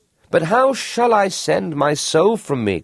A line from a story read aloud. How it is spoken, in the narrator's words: cried the young fisherman